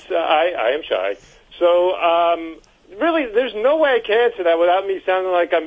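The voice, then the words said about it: Long Island accent. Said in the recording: “I pronounce it with this Long Island accent”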